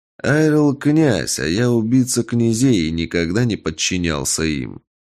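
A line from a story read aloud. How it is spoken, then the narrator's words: Calm. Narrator (Russian): спокойно ответил Эльдогар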